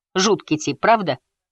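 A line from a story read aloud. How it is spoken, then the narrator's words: Snorting. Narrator (Russian): Салли не смеялась, а фыркала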